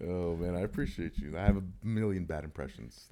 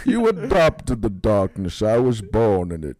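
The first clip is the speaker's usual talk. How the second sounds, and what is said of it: Bane impression. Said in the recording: “Bane from The Dark Knight Rises ... that impression ... That was pretty good ... you actually gave a good fucking impression”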